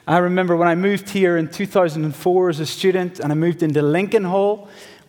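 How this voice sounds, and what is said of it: Northern Irish accent. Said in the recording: “from my accent, I'm not from West Texas. I've been practicing my y'all, but it just doesn't sound right. I'm from a wee country called Northern Ireland”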